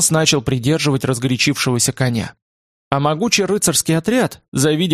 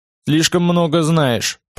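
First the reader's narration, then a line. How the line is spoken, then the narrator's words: Grumbling. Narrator (Russian): проворчал он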